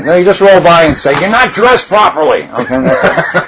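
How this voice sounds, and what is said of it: New York accent. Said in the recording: “That's New York accent ... this big mouth New Yorker”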